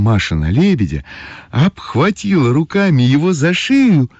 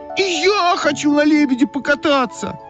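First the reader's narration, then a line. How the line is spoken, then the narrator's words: Shouting. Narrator (Russian): закричала Ойка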